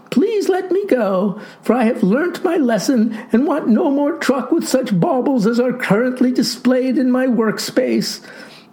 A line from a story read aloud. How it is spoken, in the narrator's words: wailed the boy